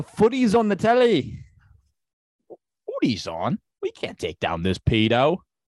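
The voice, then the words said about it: Deliberately bad put-on British accent. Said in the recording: “a way for you to um do a British ... do my terrible ... British Br- accent. That my British accent”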